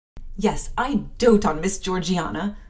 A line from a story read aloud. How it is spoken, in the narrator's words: cried the fervent Abbott